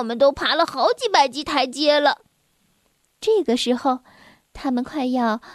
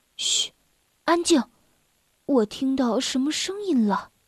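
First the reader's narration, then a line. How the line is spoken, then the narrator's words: Sudden low voice. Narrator (Chinese): 鲁鲁突然低声地说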